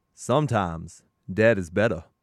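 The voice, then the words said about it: Put-on accent quoting a movie line. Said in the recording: “The accent, no. ... Hey, that was pretty good. ... It was good.”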